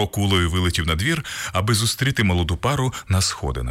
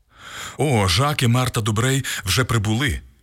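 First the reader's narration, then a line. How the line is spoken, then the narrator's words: Exclaimed. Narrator (Ukrainian): вигукнув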